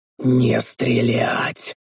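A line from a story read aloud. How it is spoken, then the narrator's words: Barely audible hiss. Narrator (Russian): Еле слышно прошипел я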